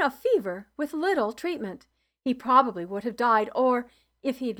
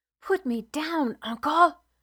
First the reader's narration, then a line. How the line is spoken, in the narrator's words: I whispered